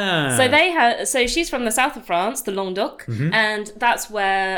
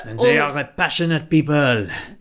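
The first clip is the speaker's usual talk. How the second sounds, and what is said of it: Put-on French accent. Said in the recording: “I don't know what accent you're doing ... apologise for your French accent”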